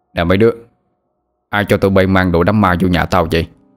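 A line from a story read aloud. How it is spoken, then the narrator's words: Irritated raised-voice question. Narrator (Vietnamese): Ông bực mình cao giọng hỏi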